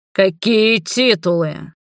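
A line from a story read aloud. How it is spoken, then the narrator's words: Deep guttural growl. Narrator (Russian): прорычал утробно Роберт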